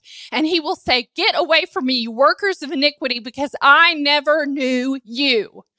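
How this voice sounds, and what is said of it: Yelling, raised preaching voice. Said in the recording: “I'm not yelling at you. I'm yelling at me.”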